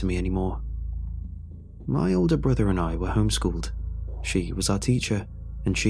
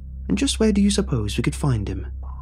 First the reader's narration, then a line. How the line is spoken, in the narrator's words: asked